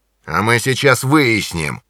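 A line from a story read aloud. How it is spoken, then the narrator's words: Growling. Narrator (Russian): прорычал англичанин Джонни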